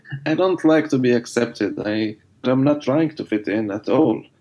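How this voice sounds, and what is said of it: Non-native English accent. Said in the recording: “I'm no longer ashamed mm, uh, with my accent ... the accent”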